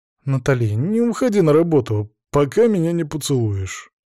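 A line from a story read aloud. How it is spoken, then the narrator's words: Sleepy sluggish demand. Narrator (Russian): потребовал вялым голосом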